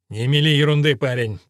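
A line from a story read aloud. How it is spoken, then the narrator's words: Grumbled. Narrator (Russian): пробурчал Элфрик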